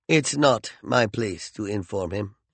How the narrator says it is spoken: Tachyon said coldly

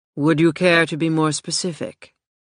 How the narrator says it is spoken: He asked in a flat voice

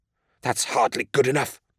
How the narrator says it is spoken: spat a young man

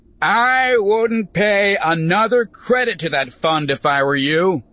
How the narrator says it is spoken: Ulbrich shouted

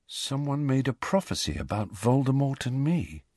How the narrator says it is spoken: he said quietly

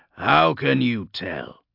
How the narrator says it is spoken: growled Joseph

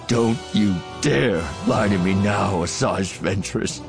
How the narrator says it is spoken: Voss snarled

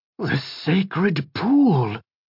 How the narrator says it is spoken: Devlin whispered, and shuddered

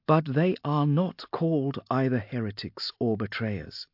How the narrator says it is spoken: said Viola calmly

